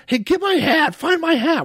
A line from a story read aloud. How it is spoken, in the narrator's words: while he's bouncing around up in the air, he's yelling